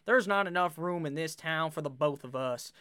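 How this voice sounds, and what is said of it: Bad put-on cowboy accent. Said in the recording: “that was a terrible fucking cowboy accent”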